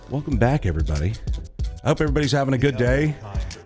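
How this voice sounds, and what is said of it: Voice affected by illness. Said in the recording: “I'm still got whatever googly boo that's in me ... pardon the voice”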